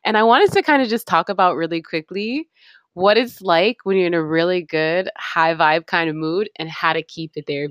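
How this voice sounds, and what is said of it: Excited, upbeat voice. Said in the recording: “As you can tell from my voice, I'm really excited today.”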